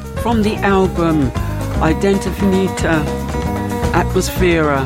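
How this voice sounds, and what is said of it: Put-on Italian accent. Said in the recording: “That's my Italian impression, by the way.”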